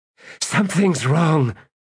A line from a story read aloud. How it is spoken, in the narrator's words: gasped Kedavis